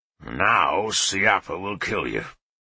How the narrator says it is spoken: Leofric grumbled

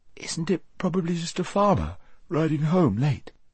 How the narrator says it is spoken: said Shasta with a yawn

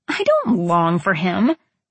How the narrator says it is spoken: I scoffed

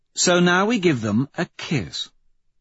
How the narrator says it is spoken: Victor says, with a little purr

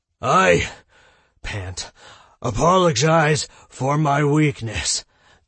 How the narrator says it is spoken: Tom gasped

